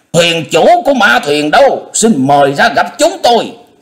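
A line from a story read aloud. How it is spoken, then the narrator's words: Angry shouted question. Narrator (Vietnamese): La Liên A Tôn không sao nhịn được, bỗng giận dữ quát hỏi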